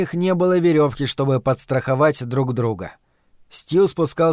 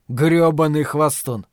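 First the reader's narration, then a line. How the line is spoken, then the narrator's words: Muttering. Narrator (Russian): пробурчал Стью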